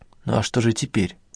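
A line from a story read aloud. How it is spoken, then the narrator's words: Quiet question. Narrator (Russian): тихо спросила Соня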